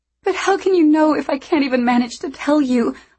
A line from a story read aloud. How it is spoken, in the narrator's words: I sobbed